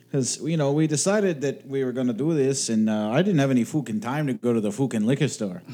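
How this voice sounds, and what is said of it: Put-on Irish accent. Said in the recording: “I get to do me Irish accent here ... Oh, this is just really unpleasant audio.”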